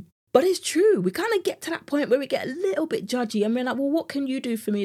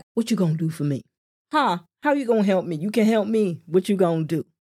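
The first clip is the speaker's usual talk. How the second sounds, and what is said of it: Put-on American accent. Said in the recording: “That's the only accent I know when it comes to the US.”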